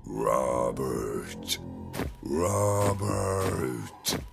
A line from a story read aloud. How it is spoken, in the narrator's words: Daniel, in costume, stood outside Robert's window and growled